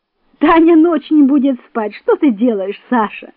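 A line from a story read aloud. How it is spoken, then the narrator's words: Laughing mother. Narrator (Russian): сказала, смеясь, мама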